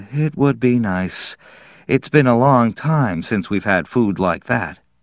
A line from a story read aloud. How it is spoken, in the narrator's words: Wistfully, Pat said